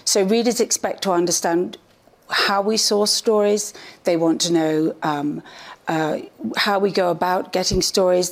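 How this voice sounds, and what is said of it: English accent. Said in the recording (Spanish): “los ingleses hablando así... el acento”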